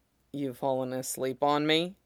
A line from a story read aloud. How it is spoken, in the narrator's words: Jason asked quietly